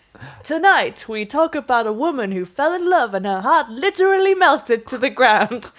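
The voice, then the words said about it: Michael Burke impression, TV presenter voice. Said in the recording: “Is that Michael Burke's accent?”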